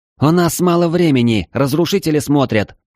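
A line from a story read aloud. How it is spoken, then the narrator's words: Sudden shriek. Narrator (Russian): вдруг взвизгнула она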